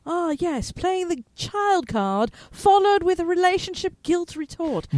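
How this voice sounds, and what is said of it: Snobby British accent. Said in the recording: “in his snobby British accent”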